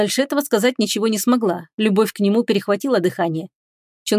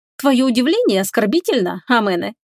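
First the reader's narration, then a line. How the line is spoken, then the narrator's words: Cheerful teasing. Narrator (Russian): весело потрунила над ним она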